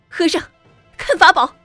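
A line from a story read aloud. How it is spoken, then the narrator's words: Angry shout. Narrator (Chinese): 素贞也发了性，叫道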